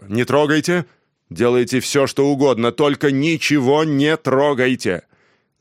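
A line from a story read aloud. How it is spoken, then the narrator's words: Loud, slow reading. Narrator (Russian): он прочел громко и медленно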